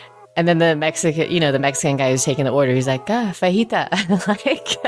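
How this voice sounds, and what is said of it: Usual voice. Nothing is said of it.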